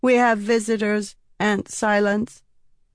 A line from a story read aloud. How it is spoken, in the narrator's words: Sabruki said in a cold, monotone voice